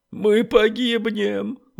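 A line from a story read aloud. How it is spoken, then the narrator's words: Sobbing. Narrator (Russian): чье-то рыдание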